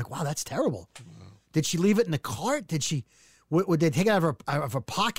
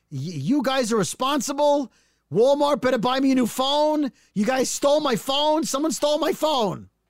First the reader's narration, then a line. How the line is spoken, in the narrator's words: she starts yelling